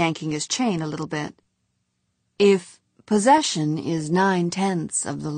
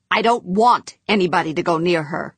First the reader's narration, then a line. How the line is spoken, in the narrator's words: Humphreys snapped